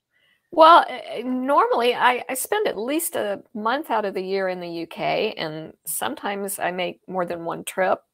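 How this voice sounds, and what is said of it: Texan accent. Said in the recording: “I am a native Texan, as you might have guessed from the accent”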